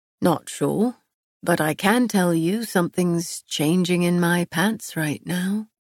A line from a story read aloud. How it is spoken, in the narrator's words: he murmured